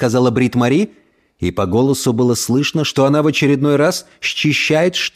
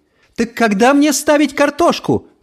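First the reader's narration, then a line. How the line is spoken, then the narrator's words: Calling after someone. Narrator (Russian): крикнула ему вслед Брит Мари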